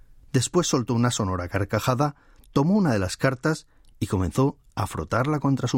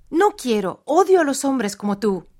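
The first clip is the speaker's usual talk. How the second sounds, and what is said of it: Speaks in a woman's voice. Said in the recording (Spanish): “exclamó ahora con voz de mujer.”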